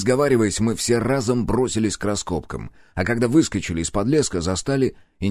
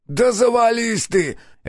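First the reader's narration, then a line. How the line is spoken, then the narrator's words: Bark. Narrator (Russian): рявкнул Нос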